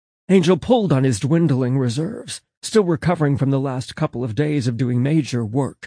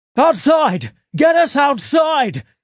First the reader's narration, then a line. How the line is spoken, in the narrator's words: Angel yelled